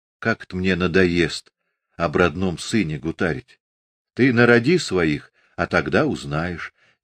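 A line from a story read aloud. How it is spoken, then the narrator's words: Quiet reply. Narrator (Russian): тихо ответила Ильинична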